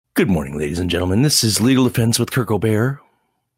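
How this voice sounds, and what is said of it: Subtle, mellow radio announcer voice. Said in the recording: “an alternative announcer voice, which I liked very much. It was a little more subtle, downplayed ... from the morning drive to NPR voice ... more like the afternoon slow rock, or maybe like mellow rock station”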